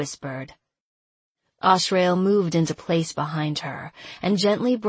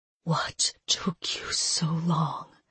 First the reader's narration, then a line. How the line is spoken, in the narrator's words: she whispered, going still